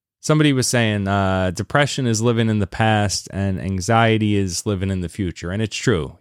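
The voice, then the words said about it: Slightly raspy voice. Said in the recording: “My cold is finally better. I might still sound a little raspy”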